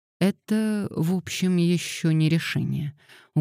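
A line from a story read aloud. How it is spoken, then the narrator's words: Gloomy, uncertain. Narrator (Russian): угрюмо и неуверенно сказал Габриэль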